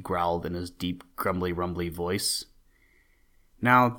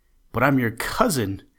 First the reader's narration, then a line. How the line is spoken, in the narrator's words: cried Bobby as he started to run